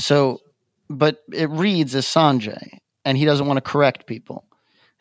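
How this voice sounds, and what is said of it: Light accent. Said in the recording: “my light accent”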